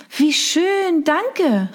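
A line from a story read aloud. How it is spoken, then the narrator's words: Delighted exclamation. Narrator (German): rief ich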